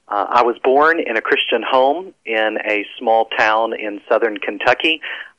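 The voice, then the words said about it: Southern US accent. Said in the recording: “I'm not from Pennsylvania or from the North. ... they're Southerners”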